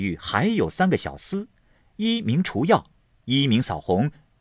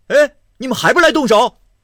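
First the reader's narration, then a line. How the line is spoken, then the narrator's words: Startled, shouting wildly. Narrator (Chinese): 明烟早吃了一下，乱嚷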